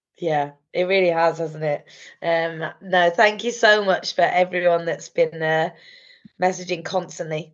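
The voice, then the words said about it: Partly lost, hoarse voice. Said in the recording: “I've semi lost my voice ... it wouldn't be a poddy without you losing your voice ... it sounds sexy”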